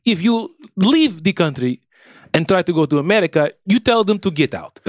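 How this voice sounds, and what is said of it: Mix of put-on foreign accents. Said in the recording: “I hear a lot of cultures in this voice. This feels like a cornucopia of impersonations.”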